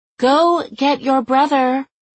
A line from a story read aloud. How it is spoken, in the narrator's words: She couldn't yell at him, not publicly, not at a distance, so she said